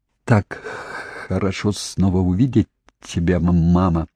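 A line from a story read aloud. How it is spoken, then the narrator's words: Muttered. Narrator (Russian): пробормотал Тони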